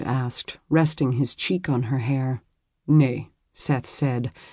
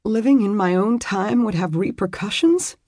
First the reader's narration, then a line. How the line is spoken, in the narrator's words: she said, still trying to silence her sobs